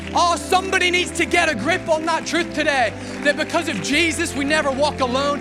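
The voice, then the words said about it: Irish accent. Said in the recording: “an Irish guy with a dodgy accent”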